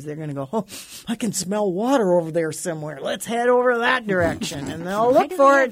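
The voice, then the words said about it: Funny worm character voice. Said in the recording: “Why do they have that accent? ... That's my worm talk.”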